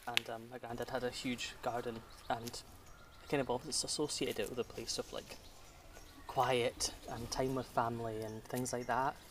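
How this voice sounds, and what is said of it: Scottish accent. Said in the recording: “you can hear from my accent, I'm Scottish”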